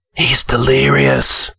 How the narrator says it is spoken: whispered a warrior

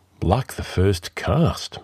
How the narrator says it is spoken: murmured Taurus

